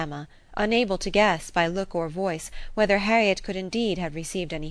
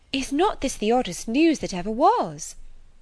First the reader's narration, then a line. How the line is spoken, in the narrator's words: cried Harriet upon coming into the room